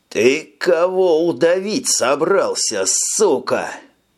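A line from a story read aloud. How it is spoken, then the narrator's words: Furious rasp. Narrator (Russian): Яростно хрипел Тони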